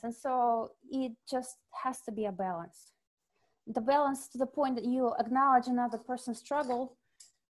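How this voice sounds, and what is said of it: Russian accent. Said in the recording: “you're like a real Russian. Like, you have a Russian accent.”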